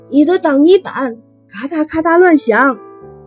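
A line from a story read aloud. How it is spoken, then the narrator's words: Yelling at full voice. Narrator (Chinese): 他想象自己扯开喉咙大叫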